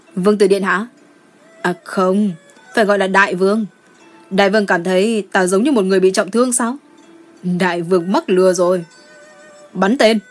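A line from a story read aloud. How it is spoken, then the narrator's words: Laughing loudly. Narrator (Vietnamese): Đỗ Hần Ngôn cười lớn nói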